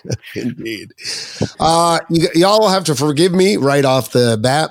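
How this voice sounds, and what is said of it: Strained, shot voice with vocal fry. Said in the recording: “My voice is a little bit shot tonight ... Got a little vocal fry going on ... screaming and perhaps shouting”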